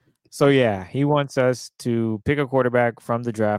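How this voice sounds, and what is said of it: Usual voice. Nothing is said of it.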